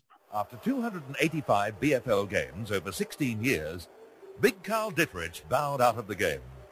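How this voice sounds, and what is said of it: Clipped old-style newsreader accent. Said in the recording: “that clipped accent that we used to have in the nightly news report”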